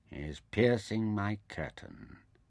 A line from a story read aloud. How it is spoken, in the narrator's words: Taita said flatly